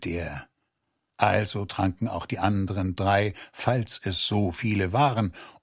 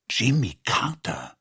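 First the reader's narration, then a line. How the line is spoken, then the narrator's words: Whispered down the hallway. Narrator (German): flüsterten sie nach hinten in den Flur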